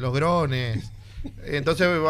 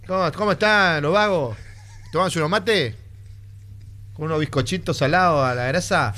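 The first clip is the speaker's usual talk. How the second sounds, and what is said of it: Mock Argentine accent. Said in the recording (Spanish): “va a tener acento curepil ... Eso es burlarse del argentino.”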